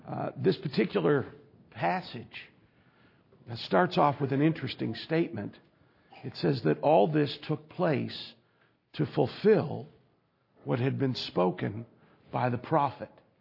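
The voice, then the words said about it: Voice in poor condition. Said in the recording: “apologize for my voice today ... without injuring you with the sound of my voice”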